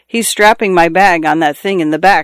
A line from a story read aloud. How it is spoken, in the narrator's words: said Mr